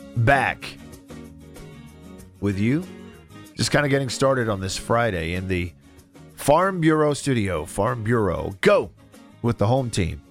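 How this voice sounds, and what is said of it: Sick-sounding voice. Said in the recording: “I have been sick as a dog. And you can probably tell by my voice.”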